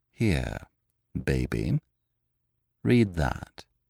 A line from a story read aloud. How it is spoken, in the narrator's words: said very calmly